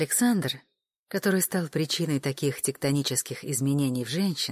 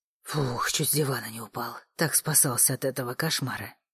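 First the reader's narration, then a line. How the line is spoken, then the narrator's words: Relieved exhale. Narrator (Russian): выдохнул Александр, осознав, что это был только сон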